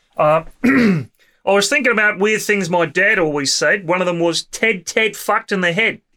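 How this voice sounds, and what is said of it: Put-on Australian accent. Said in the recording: “say this in my Australian accent. So apologies to any Australian listeners.”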